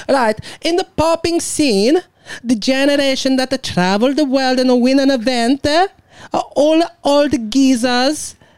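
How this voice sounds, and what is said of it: Strong accent, hard to understand. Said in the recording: “You cannot understand my fucking accent.”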